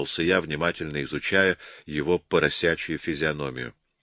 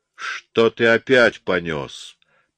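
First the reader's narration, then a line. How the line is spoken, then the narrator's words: Growl. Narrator (Russian): прорычал он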